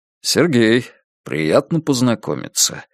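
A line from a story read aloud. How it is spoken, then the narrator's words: Calm man. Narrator (Russian): спокойно сказал мужчина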